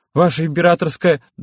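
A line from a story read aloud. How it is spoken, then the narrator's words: Loud barked chorus. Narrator (Russian): дружно рявкнули бойцы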